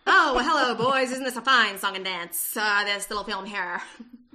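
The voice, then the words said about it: 1940s radio announcer voice. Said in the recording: “That is my 1940s radio announcer voice, in case anybody is confused.”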